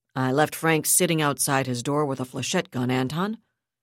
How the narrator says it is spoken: Kashat replied in a patient tone

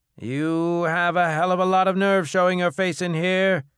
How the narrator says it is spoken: Kolu bellowed from behind the bar

